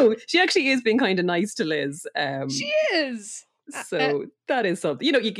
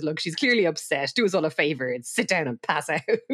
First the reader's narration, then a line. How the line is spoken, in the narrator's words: She kind of snaps at her and says